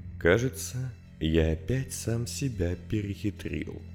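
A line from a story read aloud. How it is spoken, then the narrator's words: Quiet. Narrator (Russian): тихо сказал он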